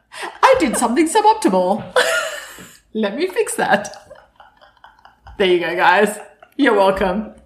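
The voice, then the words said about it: Australian accent. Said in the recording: “funny voice, just pick me. Pick me and my Aussie accent.”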